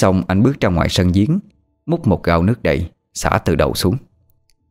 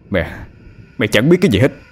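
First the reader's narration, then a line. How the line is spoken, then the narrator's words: Loud yell. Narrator (Vietnamese): Anh quát lớn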